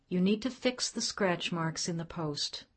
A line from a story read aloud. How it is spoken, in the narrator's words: calmly saying